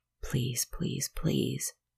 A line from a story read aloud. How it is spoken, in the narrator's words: whispering the one word